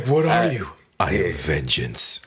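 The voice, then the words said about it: Exaggerated deep gravelly voice. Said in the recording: “did he go rugged or did he go deep voice? He said, what? he went deep voice.”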